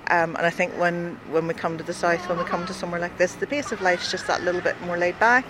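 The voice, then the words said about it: Northern Irish accent. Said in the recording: “I'm from the north, as you can hear from my accent.”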